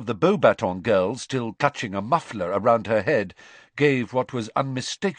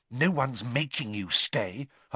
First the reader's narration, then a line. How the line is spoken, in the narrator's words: Hermione whispered, bristling at her